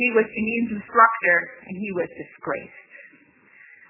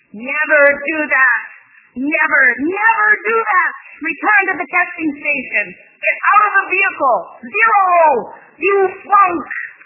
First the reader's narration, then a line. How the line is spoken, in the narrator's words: Randall or Mike or one of the other examiners had shouted in the car and screamed at Janine